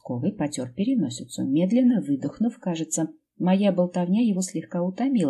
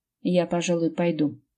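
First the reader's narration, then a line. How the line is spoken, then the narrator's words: Snorted. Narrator (Russian): фыркнул он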